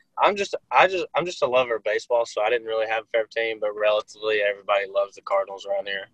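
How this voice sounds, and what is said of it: Southern Arkansas twang. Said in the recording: “You got that twang on your voice. ... I'm from Arkansas.”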